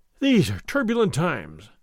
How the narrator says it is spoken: Don Diego continued, sighing

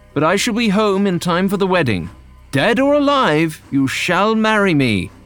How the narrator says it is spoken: John shouted as the train moved forward

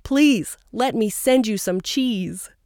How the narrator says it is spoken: One cheesemaker pleaded

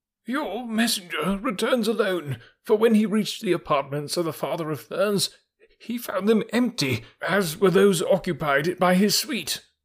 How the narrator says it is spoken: he cried, after the fashion of the court

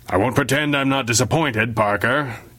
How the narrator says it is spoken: the chief had growled

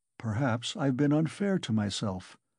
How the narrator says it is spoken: he observed gloomily, pondering

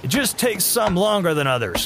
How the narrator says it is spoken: Gary shouted over the wind

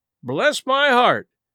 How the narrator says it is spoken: exclaimed the new arrival

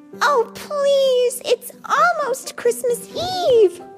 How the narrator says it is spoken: Tika wailed

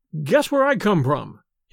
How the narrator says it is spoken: he cried

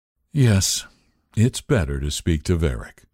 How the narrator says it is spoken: said Waythorn wearily

